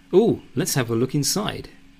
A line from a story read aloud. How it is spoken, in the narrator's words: chirps Suzette